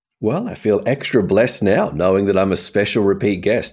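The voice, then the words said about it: Australian accent. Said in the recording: “He is from Australia ... the accent”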